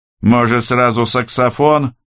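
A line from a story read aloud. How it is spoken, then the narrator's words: Skeptical grunt. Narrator (Russian): скептически хмыкнул Киря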